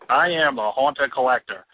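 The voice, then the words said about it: Put-on accent. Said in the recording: “good accent. We love that accent.”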